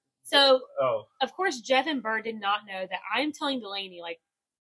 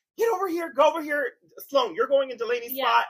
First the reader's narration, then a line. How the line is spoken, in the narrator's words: I'm yelling at the kids saying